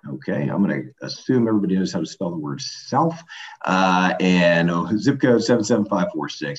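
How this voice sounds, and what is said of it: Polished radio-announcer voice. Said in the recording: “radio voice”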